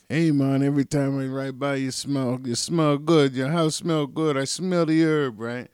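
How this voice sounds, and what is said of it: Bad put-on Jamaican accent. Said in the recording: “I have a bad Jamaican accent.”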